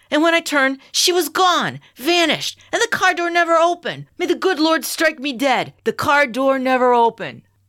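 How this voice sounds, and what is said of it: South Side Chicago accent. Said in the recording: “I love the South Side Chicagoan accent.”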